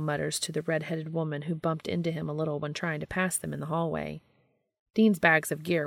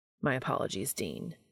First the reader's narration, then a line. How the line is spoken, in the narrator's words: Castiel mutters